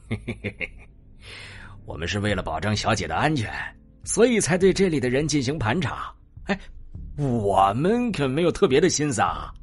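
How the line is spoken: Sly chuckling. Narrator (Chinese): 黑脸保镖嘿嘿笑道

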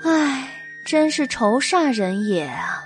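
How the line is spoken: Grieved sigh. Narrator (Chinese): 心疼毁掉的古董和字画，他叹了一口气，说道

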